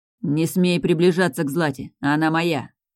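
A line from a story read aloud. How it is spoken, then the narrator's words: Sharp speech. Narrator (Russian): резко проговорил Мирослав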